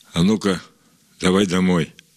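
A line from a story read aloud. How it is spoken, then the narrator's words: Loud tired woman's voice. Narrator (Russian): женское лицо громким усталым голосом говорило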